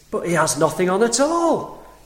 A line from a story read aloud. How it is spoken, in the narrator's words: cried at last the whole people